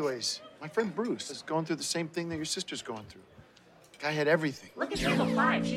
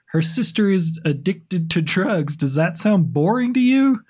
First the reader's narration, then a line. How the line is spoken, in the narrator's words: Gary gets defensive and yells at the alien, saying